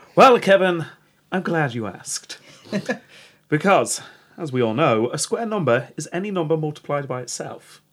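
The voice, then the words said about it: Glaswegian Scottish pirate accent. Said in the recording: “Kevin the Scottish pirate. ... Glaswegian pirate.”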